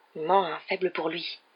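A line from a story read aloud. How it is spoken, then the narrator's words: Loud stage whisper. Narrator (French): dit Fred dans un murmure parfaitement audible pour tout le monde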